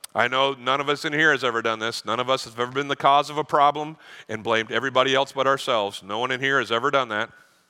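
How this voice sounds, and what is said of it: Sarcastic delivery. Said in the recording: “Are you picking up my sarcasm? ... I'm fluent in sarcasm. That was sarcasm.”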